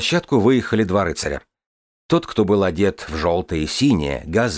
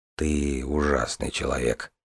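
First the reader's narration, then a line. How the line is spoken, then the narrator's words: Muttered. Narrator (Russian): пробормотал брат Коун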